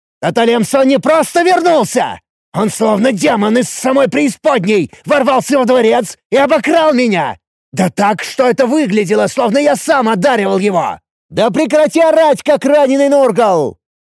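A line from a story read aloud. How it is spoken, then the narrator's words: Stunned loud roar. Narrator (Russian): Ничуть не слабее меня взревел в ответ ошеломленный новостями Ацев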